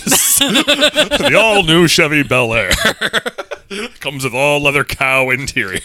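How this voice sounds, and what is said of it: Radio announcer voice. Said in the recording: “radio announcer voice”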